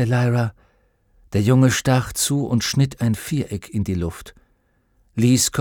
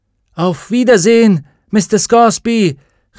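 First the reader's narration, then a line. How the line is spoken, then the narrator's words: Called out. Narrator (German): rief Lyra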